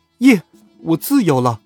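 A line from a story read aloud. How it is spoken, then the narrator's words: Joyful shout. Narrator (Chinese): 我高兴的差点没立刻跳起来，大喊了一声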